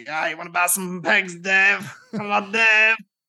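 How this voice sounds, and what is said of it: Put-on comedy character accent. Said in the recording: “Papa Lazaru becoming within the League of Gentlemen ... That's a better accent, to be fair.”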